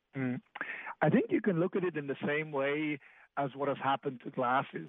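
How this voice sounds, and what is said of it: Mixed Swiss-English accent. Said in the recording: “the accent has got me ... half Swiss, half English ... unidentifiable accent”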